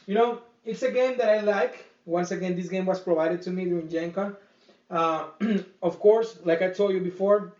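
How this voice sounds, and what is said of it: Speaker's own accent. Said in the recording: “just because of my accent ... in case in my accent mess it up again”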